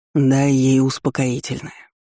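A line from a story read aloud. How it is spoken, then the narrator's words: Weary sigh, suppressed anger. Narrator (Russian): устало вздохнул старейшина, пытаясь побороть неописуемый гнев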